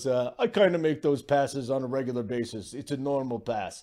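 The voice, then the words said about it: Poor imitation of another person's voice. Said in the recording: “That was an awful Jokic voice ... a better impression”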